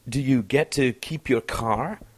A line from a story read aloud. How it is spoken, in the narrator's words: asked